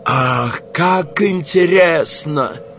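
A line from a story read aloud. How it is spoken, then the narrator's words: Foreigner exclaiming. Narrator (Russian): воскликнул иностранец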